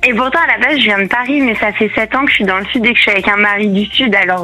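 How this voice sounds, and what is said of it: Slight southern French accent. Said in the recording (French): “petit accent du Sud ... Petit accent du Sud, ouais”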